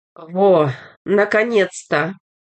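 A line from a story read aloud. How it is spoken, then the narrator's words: Relieved exhale. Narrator (Russian): выдохнул огурец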